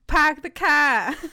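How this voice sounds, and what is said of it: Boston accent. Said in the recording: “you want to hear a Boston accent?”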